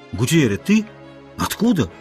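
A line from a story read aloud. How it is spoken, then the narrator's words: Surprised, glad exclamation. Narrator (Russian): воскликнул удивленный и обрадованный Ольсен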